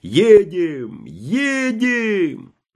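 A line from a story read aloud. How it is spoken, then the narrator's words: Frantic yelling. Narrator (Russian): один солдат орал точно помешанный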